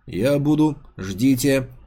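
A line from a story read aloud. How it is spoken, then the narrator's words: Pleasant firm melodic droid voice. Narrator (Russian): перебил его дроид приятным, но твердым голосом, мелодичным, как у прочих моделей роботов-секретарей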